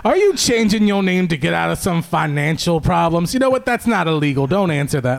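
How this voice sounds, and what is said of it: Thick Southern accent, Foghorn Leghorn-like. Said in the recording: “this like real thick Southern accent ... It's fun that it was in an accent and everything ... was it the rooster from Looney Tunes ... that's exactly how he sounded ... Foghorn Leghorn”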